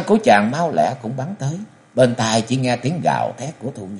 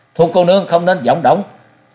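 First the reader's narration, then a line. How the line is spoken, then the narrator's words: Frightened loud shout. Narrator (Vietnamese): sợ hãi quát to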